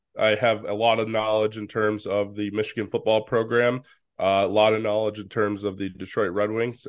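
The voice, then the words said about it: Congested, strained voice. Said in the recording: “my voice is kind of where it is right now in terms of the allergies”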